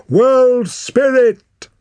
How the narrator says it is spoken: howled Torak

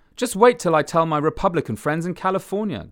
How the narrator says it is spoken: Graham exclaimed

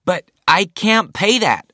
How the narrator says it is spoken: cried Zachary

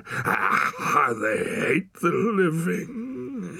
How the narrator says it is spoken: he moaned

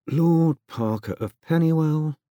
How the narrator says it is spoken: said happily under his breath

